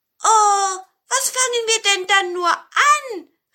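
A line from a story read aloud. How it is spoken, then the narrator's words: Large pinecone calling. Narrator (German): rief der große Tannenzapfen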